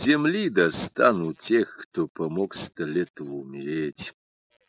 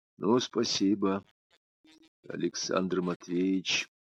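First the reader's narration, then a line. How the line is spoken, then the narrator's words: Quiet. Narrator (Russian): негромко сказала Анна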